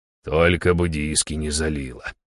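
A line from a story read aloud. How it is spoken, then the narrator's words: Barely audible mumble. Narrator (Russian): еле слышно пробубнил он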